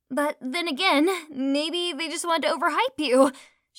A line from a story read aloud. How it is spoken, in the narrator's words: shouted Lady Gemstone